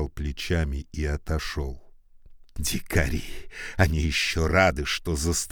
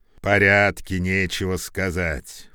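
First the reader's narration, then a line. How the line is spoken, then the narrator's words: Neighbor grumbling. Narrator (Russian): проворчал сосед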